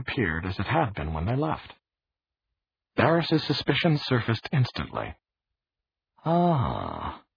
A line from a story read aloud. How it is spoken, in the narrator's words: he murmured